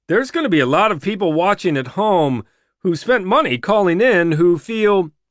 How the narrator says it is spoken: interjects as scripted, hurriedly scripted, over the gasping and shouting

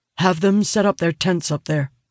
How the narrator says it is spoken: he says

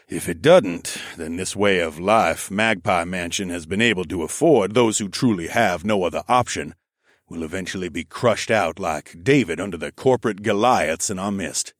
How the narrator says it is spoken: he said, wearily

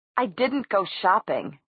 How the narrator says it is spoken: Alec said furiously

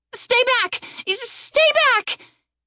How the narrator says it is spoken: Erin screamed at the wolves as they began to circle her

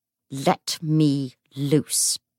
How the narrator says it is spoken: he snarled

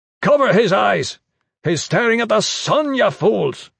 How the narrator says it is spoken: shouted

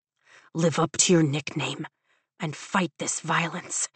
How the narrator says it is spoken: Zayden whispers against my ear

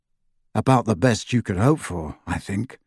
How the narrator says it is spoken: murmured Harry

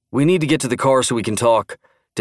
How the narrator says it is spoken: Dan uttered breathlessly

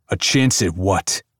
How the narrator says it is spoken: Saint barks out

